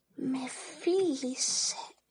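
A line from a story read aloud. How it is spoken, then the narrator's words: Barely audible whisper in ear. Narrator (Greek): έκυψε εις το ους της Αφέντρας και ψιθύρισε με φωνή μόλις ακουόμενη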